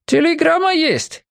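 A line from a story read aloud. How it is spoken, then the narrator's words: Shouted. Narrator (Russian): крикнул он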